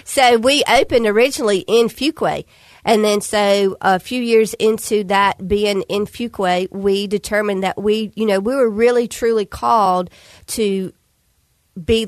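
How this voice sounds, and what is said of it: Regional accent from Fuquay. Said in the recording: “as you can probably tell from this accent, that's where I'm from”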